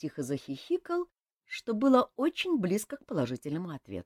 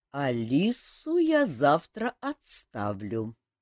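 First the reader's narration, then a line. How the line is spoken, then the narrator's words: Thoughtful, king. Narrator (Russian): задумчиво сказал король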